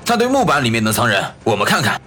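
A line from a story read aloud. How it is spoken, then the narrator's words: Sudden. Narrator (Chinese): 先前喊话的那位却忽然说道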